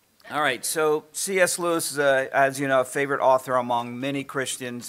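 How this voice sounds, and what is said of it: Voice giving out, strained. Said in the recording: “I'm losing my voice already”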